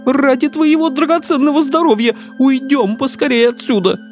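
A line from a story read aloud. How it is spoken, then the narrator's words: Timid babbling. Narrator (Russian): пролепетал Жан Трус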